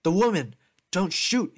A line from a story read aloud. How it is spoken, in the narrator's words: he cried